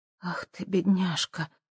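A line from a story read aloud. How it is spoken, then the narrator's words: Whisper. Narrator (Russian): прошептала Хелен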